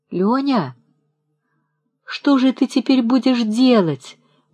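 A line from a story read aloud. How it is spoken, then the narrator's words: Whiny, tearful. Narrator (Russian): говорила она на другой день ноющим и слезливым тоном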